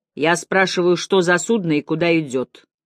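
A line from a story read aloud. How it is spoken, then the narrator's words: Cold repetition. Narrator (Russian): холодно повторил он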